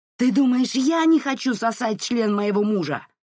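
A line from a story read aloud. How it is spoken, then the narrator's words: Screaming through door. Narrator (Russian): вопила в дверную щель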